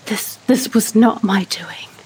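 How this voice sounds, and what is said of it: Hoarse whisper. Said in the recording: “in a hoarse whisper”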